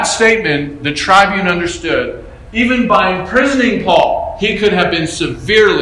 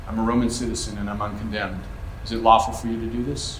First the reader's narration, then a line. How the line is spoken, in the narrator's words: Paul again, once again, calmly tells this man